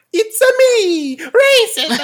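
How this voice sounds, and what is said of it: Super Mario cartoon Italian voice. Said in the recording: “That was my Super Mario impression.”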